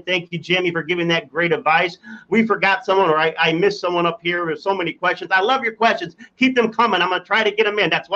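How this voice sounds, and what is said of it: Speaking very fast. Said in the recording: “I'm talking so fast”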